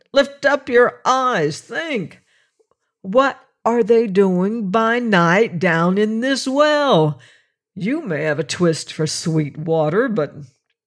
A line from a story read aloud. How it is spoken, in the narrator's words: cried